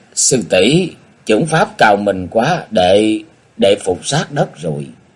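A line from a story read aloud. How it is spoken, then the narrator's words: Flustered stammering. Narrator (Vietnamese): Thành Phong mặt đỏ bừng bừng, miệng lắp bắp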